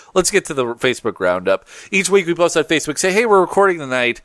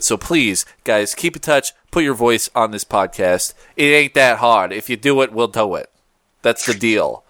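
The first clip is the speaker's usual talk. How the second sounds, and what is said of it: Put-on generic East Coast accent. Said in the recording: “What is that accent you're doing? ... generic East Coast? ... something like Old Jersey?”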